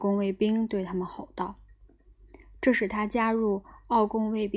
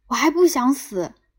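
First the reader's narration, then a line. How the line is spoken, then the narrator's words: Shouting. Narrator (Chinese): 他喊道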